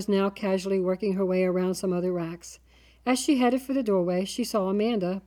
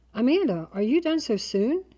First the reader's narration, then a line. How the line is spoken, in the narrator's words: she exclaimed, trying to seem innocent